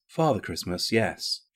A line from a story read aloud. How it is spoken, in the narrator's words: she replied, perfectly calmly